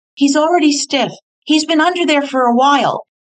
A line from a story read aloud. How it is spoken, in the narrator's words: Carl shouted